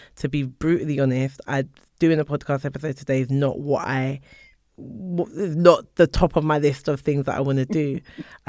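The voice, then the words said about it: Tired, strained, fading voice. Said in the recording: “I'm really tired. My voice is going.”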